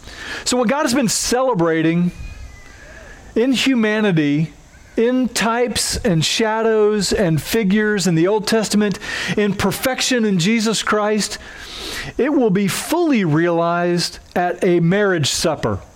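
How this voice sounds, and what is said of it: Twangy Oklahoma accent. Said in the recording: “I have a twangy accent at times because I'm from Oklahoma”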